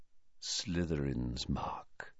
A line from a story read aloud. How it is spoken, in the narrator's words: he said quietly